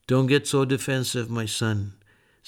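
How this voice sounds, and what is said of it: Kind, gentle voice. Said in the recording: “in a kind voice”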